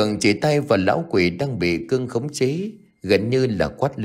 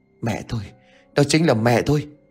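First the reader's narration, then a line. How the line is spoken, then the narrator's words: Panting breathless. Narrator (Vietnamese): Gã thở hổn hển mà nói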